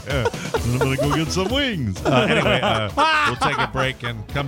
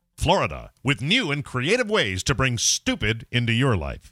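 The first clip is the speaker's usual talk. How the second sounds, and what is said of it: Announcer voice. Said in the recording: “I'm going to do it like with real announcer voice today.”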